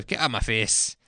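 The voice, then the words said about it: Put-on Scottish accent. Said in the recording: “my Scottish accent”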